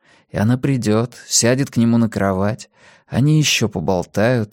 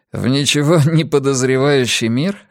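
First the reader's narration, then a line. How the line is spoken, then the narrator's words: Chuckling. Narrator (Russian): хохотнул он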